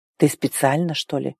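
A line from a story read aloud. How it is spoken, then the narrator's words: Hoarse, frowning. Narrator (Russian): Прохрипел, хмурясь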